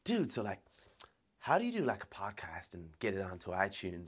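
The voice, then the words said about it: Put-on San Francisco Bay accent. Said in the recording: “I'm trying to do my best, kind of accent from the Bay, uh, San Francisco, it's clearly going to be fucking terrible”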